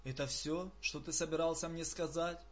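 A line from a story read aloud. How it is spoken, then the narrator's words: Barely audible. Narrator (Russian): Закхей чуть слышно проговорил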